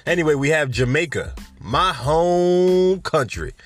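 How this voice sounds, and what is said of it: Brief put-on country accent. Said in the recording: “I don't know why I said home country in a country accent.”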